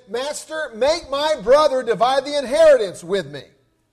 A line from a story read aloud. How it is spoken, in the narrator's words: yelled out to Jesus at one point and said